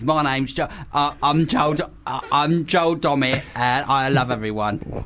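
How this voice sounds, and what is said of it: Imitates another person's voice. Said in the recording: “That's terrible.”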